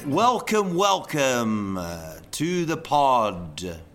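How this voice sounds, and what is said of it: Put-on radio announcer voice. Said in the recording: “See, that's my radio voice. ... Do we have to talk like this the whole time?”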